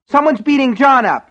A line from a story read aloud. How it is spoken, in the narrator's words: she screamed